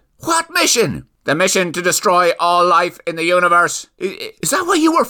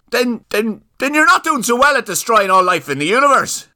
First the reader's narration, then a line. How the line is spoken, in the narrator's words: yelled Catherine